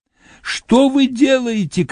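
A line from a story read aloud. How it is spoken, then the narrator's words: Shouting old woman. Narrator (Russian): кричала старуха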